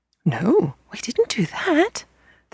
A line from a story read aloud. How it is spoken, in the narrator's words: the children gasped